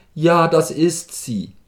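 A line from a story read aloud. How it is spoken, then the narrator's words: Called out. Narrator (German): rief Kowaljow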